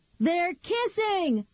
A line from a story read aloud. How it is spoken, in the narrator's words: Nikki shouted